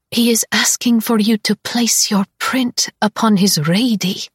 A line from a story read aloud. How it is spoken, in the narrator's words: Syza rasps, her voice hitched with awe